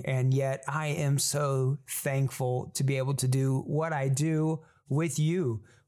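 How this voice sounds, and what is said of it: Tired-sounding voice. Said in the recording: “my voice sounds a little different, that's because it's tired”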